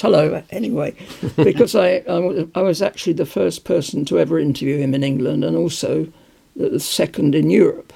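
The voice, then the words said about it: Hoarse, failing voice. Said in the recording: “My voice is gone.”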